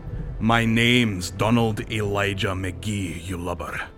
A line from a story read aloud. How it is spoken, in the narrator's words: the old seaman growled